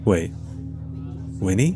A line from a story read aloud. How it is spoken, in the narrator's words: he whispered